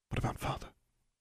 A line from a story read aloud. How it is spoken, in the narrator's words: Julia asked quietly